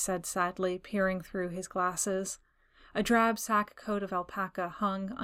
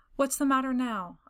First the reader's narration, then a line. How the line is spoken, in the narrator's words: I asked nervously